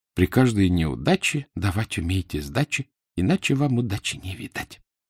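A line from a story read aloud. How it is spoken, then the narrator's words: Crystal-voiced singing. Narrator (Russian): Миранда пропела хрустальным голоском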